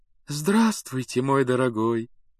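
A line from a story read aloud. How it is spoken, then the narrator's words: Cooing. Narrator (Russian): проворковала она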